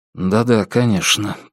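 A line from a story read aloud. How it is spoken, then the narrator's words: Muttered. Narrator (Russian): пробормотал Алан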